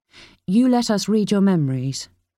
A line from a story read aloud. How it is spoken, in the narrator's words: Kira said flatly